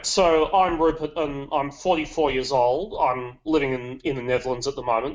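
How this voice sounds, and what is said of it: Slight British accent. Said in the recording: “You can probably notice a bit of British accent there”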